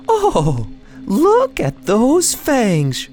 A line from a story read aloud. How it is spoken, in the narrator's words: she squealed